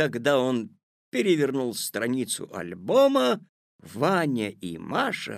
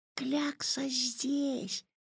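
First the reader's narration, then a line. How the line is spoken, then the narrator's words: Whispered. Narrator (Russian): прошептал Ваня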